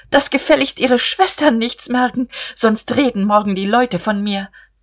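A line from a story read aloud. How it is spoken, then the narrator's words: Calling after someone. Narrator (German): Guste rief ihm nach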